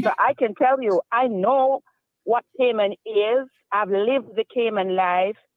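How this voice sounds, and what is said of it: Jamaican accent. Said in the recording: “I hear a little bit of an accent there. Where are you from? ... Well, I'm Jamaican.”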